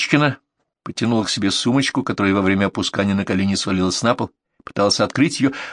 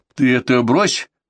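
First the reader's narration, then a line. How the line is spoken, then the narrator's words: Sharp shout. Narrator (Russian): прикрикнула на нее Элла Аркадьевна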